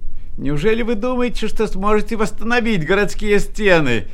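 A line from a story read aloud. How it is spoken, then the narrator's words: Shouting voices. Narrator (Russian): кричали они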